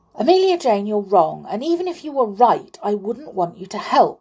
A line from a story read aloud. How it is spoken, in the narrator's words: said the clown crossly